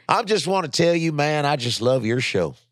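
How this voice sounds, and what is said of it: Put-on generic Southern accent. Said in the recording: “I don't even know if I'm saying the right fucking Southern. I'm just doing any Southern accent.”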